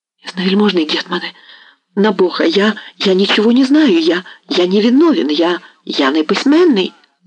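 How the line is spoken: Frightened babbling. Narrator (Russian): залепетал

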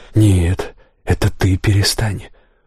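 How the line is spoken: Sudden quiet. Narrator (Russian): вдруг тихо сказал я

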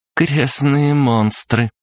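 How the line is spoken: Through gritted teeth. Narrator (Russian): процедила Настя

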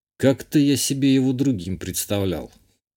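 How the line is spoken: Grumbling mutter. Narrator (Russian): Буркнул я

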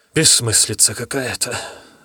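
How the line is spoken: Sigh. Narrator (Russian): вздохнул Дождесвет

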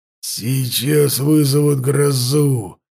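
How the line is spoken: Growl. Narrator (Russian): прорычал Даргаш

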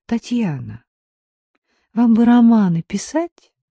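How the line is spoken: Weary, fading whisper. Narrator (Russian): устало прошептала Дина, чувствуя, как тают ее силы

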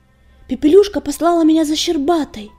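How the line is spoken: Shout. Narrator (Russian): крикнул он Огнегрифу

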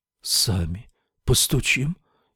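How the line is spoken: Barely audible. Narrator (Russian): еле слышно отозвался Сет

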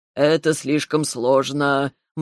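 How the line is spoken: Gloomy. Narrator (Russian): мрачно произнес Ревел

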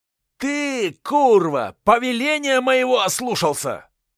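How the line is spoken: Shouting at someone. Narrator (Russian): кричал Александр Лисовский на казацкого десятника

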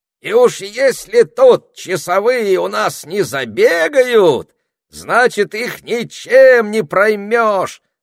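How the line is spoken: Wild yelling. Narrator (Russian): завопил Этельред

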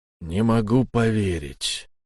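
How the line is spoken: Dejected, gloomy. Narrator (Russian): уныло проговорил человек

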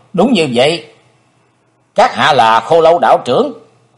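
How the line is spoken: Cold. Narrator (Vietnamese): Chí Tôn lạnh lùng nói

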